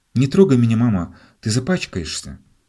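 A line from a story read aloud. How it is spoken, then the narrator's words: Child's exclamation. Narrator (Russian): мальчугана, который воскликнул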